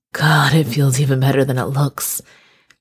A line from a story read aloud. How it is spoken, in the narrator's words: he groaned